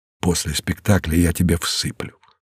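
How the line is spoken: Enemy's whisper. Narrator (Russian): шепнул Мартину его враг

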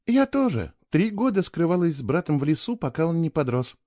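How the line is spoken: Gentle. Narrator (Russian): мягко объяснила она

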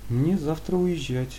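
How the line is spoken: Sad voice. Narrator (Russian): прозвучало печально

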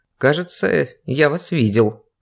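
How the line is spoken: Thoughtful guard. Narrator (Russian): задумчиво произнес охранник

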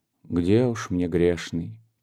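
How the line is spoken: Heavy sigh. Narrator (Russian): тяжело вздохнула Зимина

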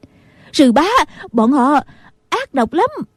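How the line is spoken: Shouting. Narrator (Vietnamese): Nghi Hòa la lên

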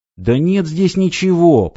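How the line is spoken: Nearly shouting. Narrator (Russian): почти закричал Стив

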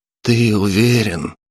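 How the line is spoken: Sighing. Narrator (Russian): вздохнул Палыч

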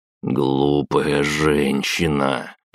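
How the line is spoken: Grumble. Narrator (Russian): проворчал я

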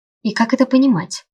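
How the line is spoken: Strained mutter. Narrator (Russian): пробормотал я, чувствуя, что держать себя в руках резко стало сложнее

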